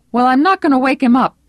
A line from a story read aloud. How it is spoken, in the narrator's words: cried